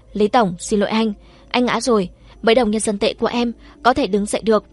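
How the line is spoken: Silly laugh, then mournful. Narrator (Vietnamese): Viên Nguyễn Chi bật cười ngốc nghếch, tiếp sau đó lại ai oán thì lường nói

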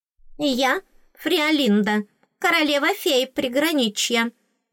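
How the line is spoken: Squeaky, attempting grandeur. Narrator (Russian): пропищала она как можно величественнее

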